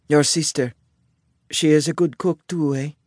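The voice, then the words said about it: Heavy Italian accent. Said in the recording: “her heavy Italian accent”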